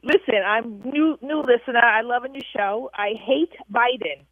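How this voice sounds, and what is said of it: Long Island New York accent. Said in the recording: “please tell me you have an accent ... I do. I'm from Long Island, New York.”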